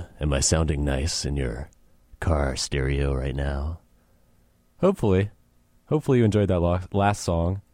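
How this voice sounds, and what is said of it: Phlegmy, deep, congested voice from cold. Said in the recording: “I'm recovering from a cold. It's making me kind of sound phlegmy and disgusting ... take my voice down a few octaves ... nice, smooth, chocolatey radio voice”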